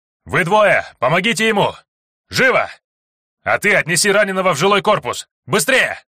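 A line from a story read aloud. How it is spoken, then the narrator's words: Shouting. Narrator (Russian): кричал парень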